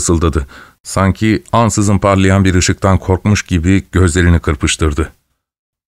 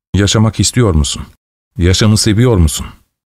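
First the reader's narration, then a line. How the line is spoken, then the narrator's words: Cold voice. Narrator (Turkish): Ramirez soğuk bir sesle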